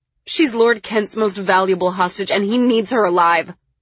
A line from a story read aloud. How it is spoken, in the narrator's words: I tried desperately